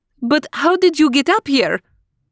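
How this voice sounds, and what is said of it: Woman's voice with French accent. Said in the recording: “Asked a woman astronaut with a French accent.”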